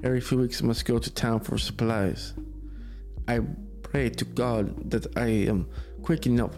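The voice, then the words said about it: Put-on Russian accent. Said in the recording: “Why am I doing like a Russian accent right now?”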